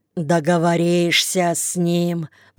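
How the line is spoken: Grumbling. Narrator (Russian): проворчал Никита

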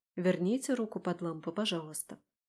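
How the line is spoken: Calm speech. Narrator (Russian): Спокойно говорю ей

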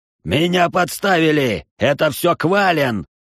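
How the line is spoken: Roaring. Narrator (Russian): взревел глава некогда популярного клана

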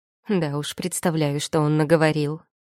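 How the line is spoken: Grumbling. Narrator (Russian): проворчала я

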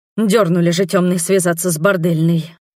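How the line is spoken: Visitor's muttering. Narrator (Russian): буркнул посетитель

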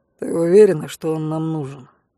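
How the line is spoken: Hostile mutter. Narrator (Russian): неприязненно буркнул Мэйр

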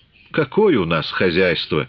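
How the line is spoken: Mocking, slightly regretful. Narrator (Russian): насмешливо, с ноткой сожаления сказал Лагутин

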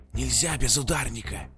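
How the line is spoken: Loud hiss. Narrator (Russian): Громко шипел один

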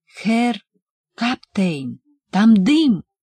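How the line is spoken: Exclaiming. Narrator (Russian): воскликнул он

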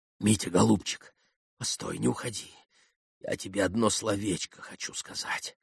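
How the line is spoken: Whisper. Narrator (Russian): прошептала

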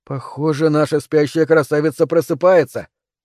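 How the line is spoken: Amused snort. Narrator (Russian): хмыкнул Тони

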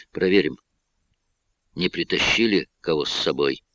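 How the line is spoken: Strained calm voice. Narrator (Russian): Катерина старалась говорить спокойно

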